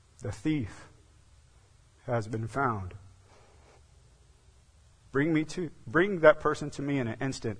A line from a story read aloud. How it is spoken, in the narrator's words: the king said